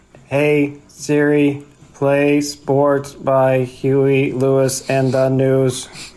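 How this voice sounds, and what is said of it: Slow, human-sounding mock robot voice. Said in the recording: “robot voice sounds too human to be a robot voice ... that's just you talking slow”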